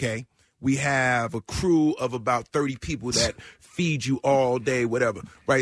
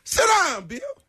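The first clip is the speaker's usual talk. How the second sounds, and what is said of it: Imitates another person's voice. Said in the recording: “my best Sam Jackson impersonation”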